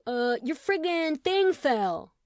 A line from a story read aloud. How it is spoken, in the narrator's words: yelled Chet